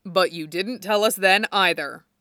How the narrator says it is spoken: said Windu

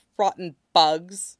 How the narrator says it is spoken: Wang Kixing says stiffly

